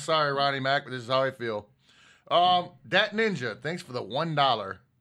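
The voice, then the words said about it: Sarcastic tone. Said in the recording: “that was sarcastic as fuck”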